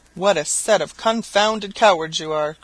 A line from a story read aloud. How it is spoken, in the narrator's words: cried the landlord